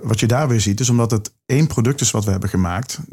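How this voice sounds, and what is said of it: Limburg Dutch accent. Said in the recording (Dutch): “dat is mijn accent. dat is mijn uh, Limburgse accent.”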